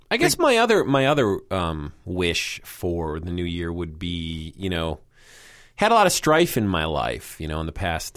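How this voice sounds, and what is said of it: Sick, nasal-sounding voice. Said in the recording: “I sound really ill ... I'm sounding very nasal as well.”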